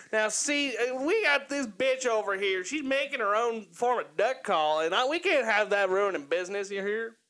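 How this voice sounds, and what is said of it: Exaggerated Kentucky Southern accent. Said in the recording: “You do that so well ... I'm from Kentucky, that's why. I suppress my accent.”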